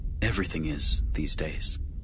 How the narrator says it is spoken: Anakin muttered

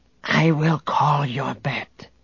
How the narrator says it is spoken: the Gotal whispered to Han

